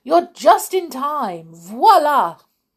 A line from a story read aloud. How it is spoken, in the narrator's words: Lumiere cried